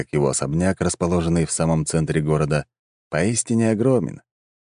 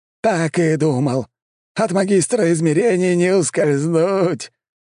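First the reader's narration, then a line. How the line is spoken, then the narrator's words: Laughing loudly. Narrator (Russian): Валамарт хохотал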